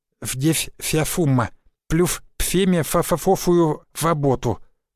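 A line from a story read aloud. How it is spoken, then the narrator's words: Lisping. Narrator (Russian): прошепелявил он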